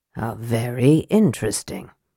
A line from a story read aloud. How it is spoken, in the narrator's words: murmured Raistlin